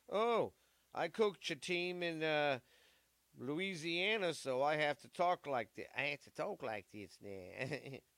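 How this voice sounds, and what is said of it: Mock Louisiana accent. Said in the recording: “he's got a fucking Louisiana accent?”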